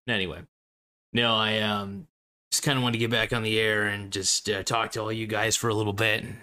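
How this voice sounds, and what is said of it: Slightly damaged, rough voice. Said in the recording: “my voice is a little bit messed up at the moment”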